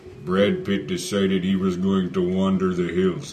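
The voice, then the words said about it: Imitated Indian accent. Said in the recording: “my best Indian impression”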